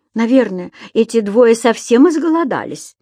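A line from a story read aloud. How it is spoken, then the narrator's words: Shouting. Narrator (Russian): крикнул другой турист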